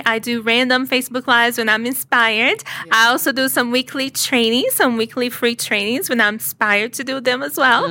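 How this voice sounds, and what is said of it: Speaks with a noticeable accent. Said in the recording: “Besides the accent,”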